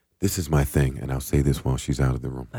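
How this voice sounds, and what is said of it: Whispering. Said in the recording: “I'm whispering like we're not on the podcast.”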